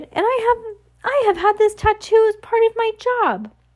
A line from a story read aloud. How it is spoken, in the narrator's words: Jacques cried